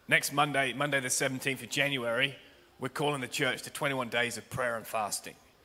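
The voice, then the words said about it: Hoarse, strained, partly lost voice. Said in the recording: “I lost my voice, so I'm going to give it everything.”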